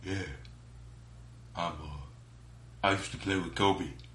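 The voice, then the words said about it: Imitates another person's voice. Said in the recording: “That is my impression of Shaquille O'Neal.”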